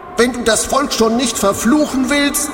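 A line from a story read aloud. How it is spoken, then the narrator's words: Called out. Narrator (German): rief er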